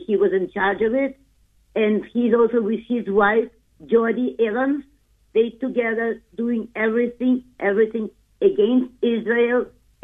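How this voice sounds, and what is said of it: Noticeable foreign accent. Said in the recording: “I don't think I heard you because you have a bit of an accent.”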